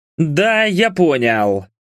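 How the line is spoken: Through gritted teeth. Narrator (Russian): процедил Влад

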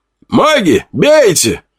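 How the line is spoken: Commander shouting. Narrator (Russian): кричал командир

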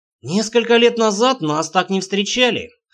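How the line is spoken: Snorting. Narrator (Russian): хмыкнул Рейнар

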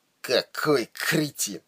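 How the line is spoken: Muttered out of mouth's corner. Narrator (Russian): процедил он уголком рта

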